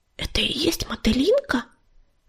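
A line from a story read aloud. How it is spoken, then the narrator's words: Whispered question. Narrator (Russian): шепотом спросила она у ласточки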